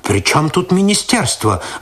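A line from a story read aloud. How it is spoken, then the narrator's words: Irritated reply. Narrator (Russian): раздраженно ответил тот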